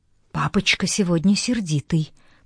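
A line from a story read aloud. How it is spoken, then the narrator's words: Whisper. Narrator (Russian): прошептала Фейф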